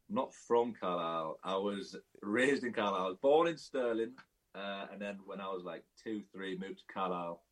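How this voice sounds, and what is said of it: Cumbrian English accent. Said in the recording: “You've certainly got the Cumbrian accent.”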